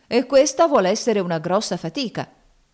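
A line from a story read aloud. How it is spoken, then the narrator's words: Grumbling. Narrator (Italian): brontolavano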